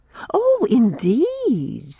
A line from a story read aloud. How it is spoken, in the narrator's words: said Irene, laughing as if she didn't believe me